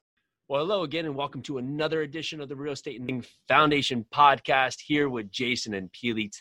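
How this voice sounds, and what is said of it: Smooth, resonant radio-style voice. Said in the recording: “you've got the perfect radio voice”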